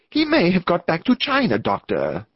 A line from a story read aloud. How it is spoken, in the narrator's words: cried